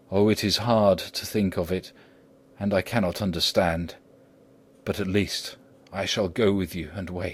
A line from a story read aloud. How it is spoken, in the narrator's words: said in a broken voice